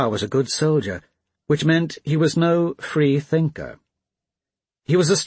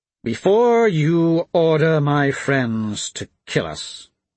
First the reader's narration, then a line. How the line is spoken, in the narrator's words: He spoke slowly, clearly, and loudly